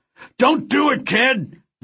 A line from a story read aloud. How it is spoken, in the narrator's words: Vance screamed over the comlink channel